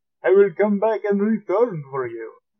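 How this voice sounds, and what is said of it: Vampire character accent. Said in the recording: “There's the accent again. ... He's a vampire. ... A proper vampire.”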